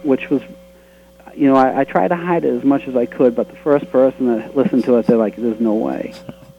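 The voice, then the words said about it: Boston accent. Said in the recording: “you have a sort of accent to you ... my accent's the Boston accent”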